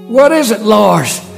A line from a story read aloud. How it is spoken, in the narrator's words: He panted